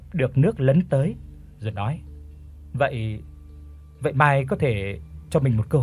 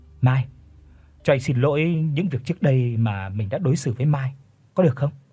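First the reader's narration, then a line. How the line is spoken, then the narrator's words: Trembling. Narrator (Vietnamese): gã run run nói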